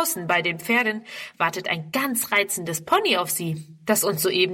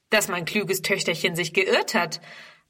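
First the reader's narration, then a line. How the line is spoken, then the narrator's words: Plain answer. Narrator (German): antwortet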